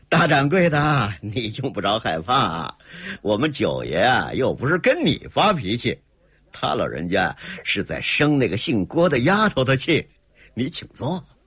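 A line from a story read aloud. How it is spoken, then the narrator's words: With a snorting laugh. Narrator (Chinese): 谢霸的白胜看出点苗头来了，扑哧一笑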